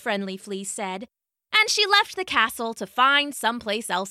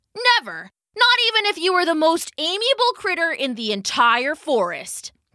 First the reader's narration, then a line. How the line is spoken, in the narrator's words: the fly shouted